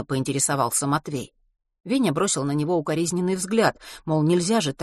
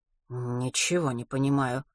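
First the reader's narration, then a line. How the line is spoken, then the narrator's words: Muttering. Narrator (Russian): пробормотал учитель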